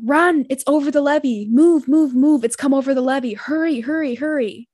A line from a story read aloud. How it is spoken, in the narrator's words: he's heard yelling